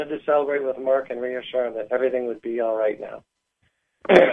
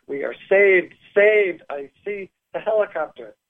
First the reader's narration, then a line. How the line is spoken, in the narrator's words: I screamed and waved as I exclaimed to Mark